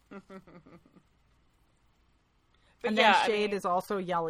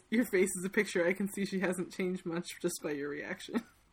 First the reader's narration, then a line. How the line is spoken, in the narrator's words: laughs at him and says